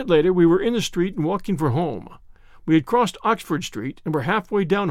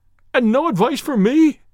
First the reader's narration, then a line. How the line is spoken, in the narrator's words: cried Blessington in a breaking voice